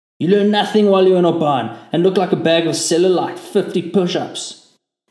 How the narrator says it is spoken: barked

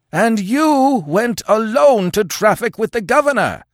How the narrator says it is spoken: yelled the Afghuli, working himself into a frothing frenzy

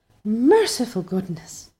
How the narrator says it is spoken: somebody said in muffled accents

